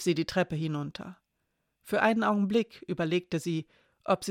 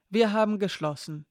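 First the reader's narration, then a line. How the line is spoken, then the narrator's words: Firm voice. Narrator (German): sagte sie mit fester Stimme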